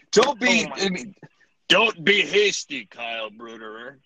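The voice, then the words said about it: Bad Treebeard impression. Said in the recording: “terrible tree beard impersonation from Lord of the Rings”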